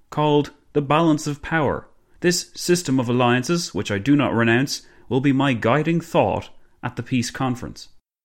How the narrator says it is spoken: Clemenceau boomed

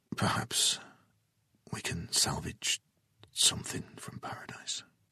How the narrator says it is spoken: Jason whispered

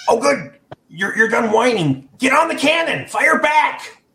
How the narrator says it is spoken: Guelph yells

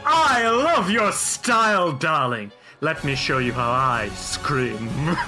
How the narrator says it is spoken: You snarl out in anger, and he cackles and says

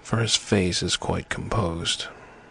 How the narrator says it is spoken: said the man who spoke for the others, solemnly

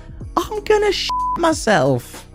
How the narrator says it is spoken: The lady responded by screaming in a panic

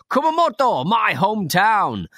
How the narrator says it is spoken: There was also one who kept on yelling

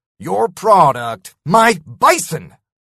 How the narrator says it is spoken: I spat

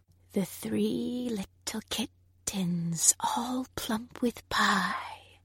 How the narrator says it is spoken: whispered the spider

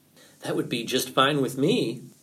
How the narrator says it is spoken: answered Fox happily

